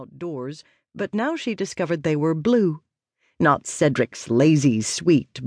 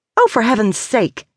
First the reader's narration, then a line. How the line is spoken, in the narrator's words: exclaimed without thinking